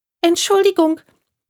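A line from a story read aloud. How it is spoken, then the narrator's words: Frightened squeak. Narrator (German): piepste es ganz verängstigt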